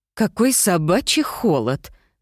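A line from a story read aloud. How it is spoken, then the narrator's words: Moaning. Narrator (Russian): простонала Мирабель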